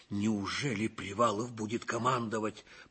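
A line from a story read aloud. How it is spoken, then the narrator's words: Muttering. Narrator (Russian): пробормотал Ливенцев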